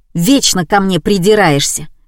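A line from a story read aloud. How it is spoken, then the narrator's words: Young man barking. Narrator (Russian): рявкнул парень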